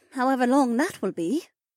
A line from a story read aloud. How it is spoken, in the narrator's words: Shay sighed